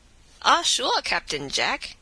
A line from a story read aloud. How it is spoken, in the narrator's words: returned the sutler in her native accent, and reeling